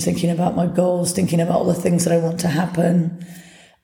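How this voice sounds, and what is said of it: Hoarse, damaged voice. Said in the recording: “my voice is a complete mess”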